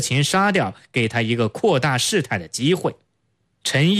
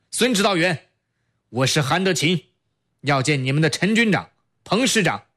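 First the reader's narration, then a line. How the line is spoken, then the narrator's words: Loud call. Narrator (Chinese): 他 高声叫道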